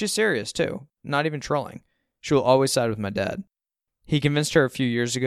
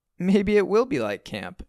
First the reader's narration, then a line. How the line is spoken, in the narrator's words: sort of laughs and shrugs